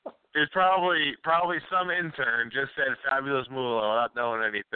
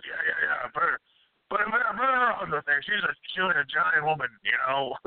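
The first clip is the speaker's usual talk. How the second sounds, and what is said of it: Imitates another person's voice. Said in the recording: “my Vince impression”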